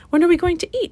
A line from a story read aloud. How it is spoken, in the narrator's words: exclaimed the fox in an overly dramatic fashion